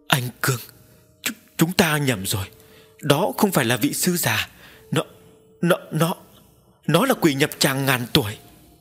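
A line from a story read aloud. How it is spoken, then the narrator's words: Young woman, panicked cry. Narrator (Vietnamese): Nữ đệ tử bỗng run run tay, nói thất thanh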